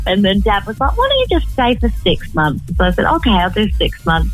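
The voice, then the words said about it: Australian accent with New Zealand twang. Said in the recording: “I can hear a bit of a New Zealand accent twang there ... the Aussie twang”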